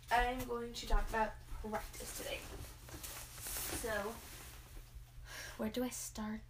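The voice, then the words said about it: Groggy voice. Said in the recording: “My voice is kind of like groggy right now”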